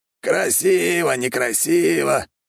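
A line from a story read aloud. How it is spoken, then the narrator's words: Snort. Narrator (Russian): фыркнул Александр Григорьевич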